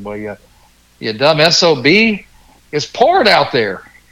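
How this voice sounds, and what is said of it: Southern drawl. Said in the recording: “in the best Southern drawl I've ever heard”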